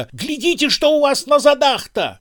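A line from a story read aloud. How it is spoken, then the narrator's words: Frightened yell. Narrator (Russian): тоже испуганно заорал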